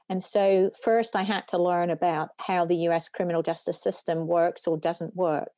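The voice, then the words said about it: British accent. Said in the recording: “you can tell from my accent, I didn't grow up in the US, I grew up in the UK”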